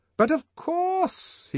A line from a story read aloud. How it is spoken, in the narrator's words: he cried, making up for his first hesitations with an excess of noisy cordiality